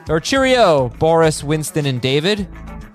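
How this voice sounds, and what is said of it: Put-on accent sounding Australian. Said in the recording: “that was a kind of an Aussie accent there”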